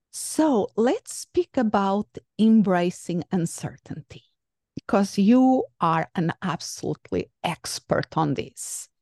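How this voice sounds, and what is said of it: Melodious radio presenter voice. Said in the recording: “That was the most melodious sounding introduction of me I have ever heard. You have a lovely voice ... It's my radio voice, our podcast voice”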